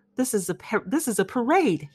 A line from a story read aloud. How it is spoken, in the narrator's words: he cried